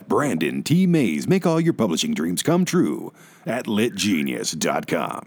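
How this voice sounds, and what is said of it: Announcer-style radio voice. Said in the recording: “I'll give you my radio voice for that.”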